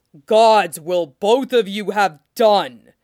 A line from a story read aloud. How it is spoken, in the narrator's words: Robert bellowed